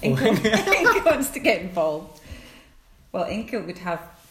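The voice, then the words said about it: Scottish accent. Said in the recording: “the accent you have, i.e. Scottish”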